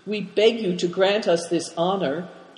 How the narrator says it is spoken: pleaded Big Tiger

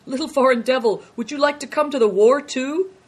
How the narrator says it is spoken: merry and laughing, and one of them said

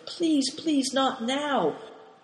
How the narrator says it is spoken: Big Tiger pleading in an earnest whisper

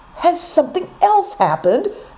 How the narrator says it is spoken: asked Affliction, gasping

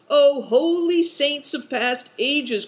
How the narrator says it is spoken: cried Good Fortune

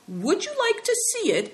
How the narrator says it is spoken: asked Christian eagerly

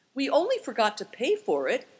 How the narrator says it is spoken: exclaimed Christian

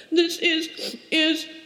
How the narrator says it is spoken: began to stammer

